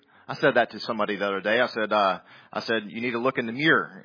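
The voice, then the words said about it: Southern American accent. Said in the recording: “my southern accent doth betray me”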